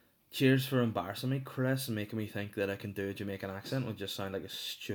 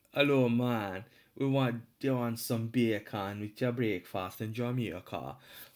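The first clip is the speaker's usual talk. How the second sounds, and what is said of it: Put-on Jamaican accent. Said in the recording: “I just automatically went Jamaican there ... oddly at the end of it I sound fully Welsh”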